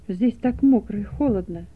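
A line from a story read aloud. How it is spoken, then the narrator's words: Childlike whimpering. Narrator (Russian): захныкал он, как ребенок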